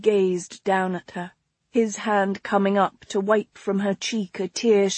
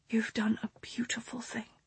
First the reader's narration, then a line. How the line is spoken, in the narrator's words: she whispered